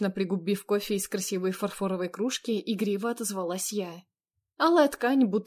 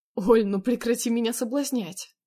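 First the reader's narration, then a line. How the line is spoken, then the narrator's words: Pleading. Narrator (Russian): взмолился Андрей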